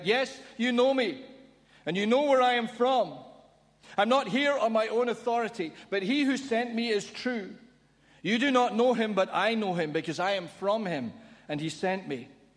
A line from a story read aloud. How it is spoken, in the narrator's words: Then Jesus, still teaching in the temple courts, cried out